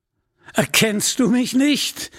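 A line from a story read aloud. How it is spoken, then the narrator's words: Mocking laugh. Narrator (German): lachte aus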